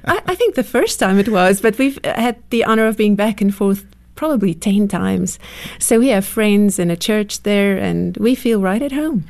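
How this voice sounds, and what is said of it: South African accent. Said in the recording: “wonderful accent ... coming from South Africa”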